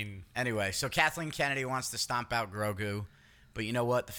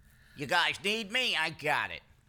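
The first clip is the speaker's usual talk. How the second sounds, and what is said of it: A terrible character impression. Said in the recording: “That was a terrible impression.”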